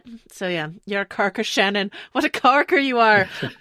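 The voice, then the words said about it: Tom Cruise's Irish accent impression. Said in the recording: “Tom Cruise's excellent Irish accent.”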